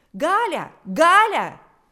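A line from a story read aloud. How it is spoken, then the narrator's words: Piercing shout. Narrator (Russian): закричал пронзительный голос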